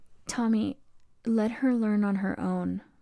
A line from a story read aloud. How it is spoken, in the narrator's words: said, her voice shaking